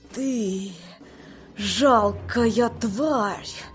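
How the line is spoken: Hiss. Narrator (Russian): прошипела она

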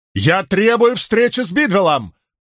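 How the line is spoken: Angry near-shout. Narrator (Russian): почти прокричал Мэтью, раскрасневшись от гнева

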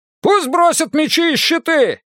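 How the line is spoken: Shouting griffin. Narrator (Russian): крикнул один из грифонов

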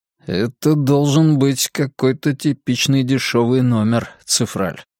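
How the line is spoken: Muttered. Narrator (Russian): пробормотал Драккайнен

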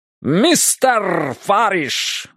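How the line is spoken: Cheerful shout, imitating comedian. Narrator (Russian): весело крикнул он, подражая голосу известного чернокожего комика с телевидения

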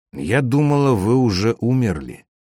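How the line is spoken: Plain. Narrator (Russian): сказала она

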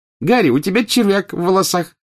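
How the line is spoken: Cheerful. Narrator (Russian): весело сообщила Джинни

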